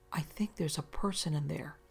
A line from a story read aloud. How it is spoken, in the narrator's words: my wife whispered